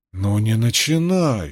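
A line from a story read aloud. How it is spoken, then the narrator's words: Pleading. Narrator (Russian): сказала, точнее, взмолился Григсби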